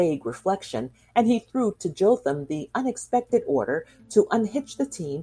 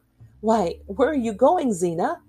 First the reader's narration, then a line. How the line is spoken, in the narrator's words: he exclaimed